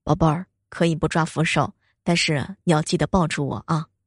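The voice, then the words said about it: Soft, quiet spoken line. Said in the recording (Chinese): “跟我小声的说”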